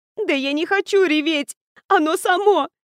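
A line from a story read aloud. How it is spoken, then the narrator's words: Desperate sobbing. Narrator (Russian): Всхлипнула я отчаянно и разревелась еще сильнее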